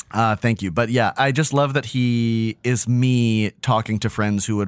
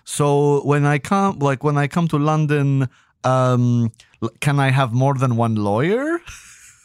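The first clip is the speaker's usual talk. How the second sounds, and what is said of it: Put-on Romanian accent. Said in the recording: “This is not a good Romanian accent. ... no, that rocked.”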